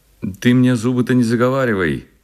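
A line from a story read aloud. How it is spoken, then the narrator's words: Ragged man shouting. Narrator (Russian): кричал подле него оборванец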